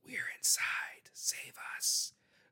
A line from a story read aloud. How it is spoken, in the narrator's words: Bodell hears another whisper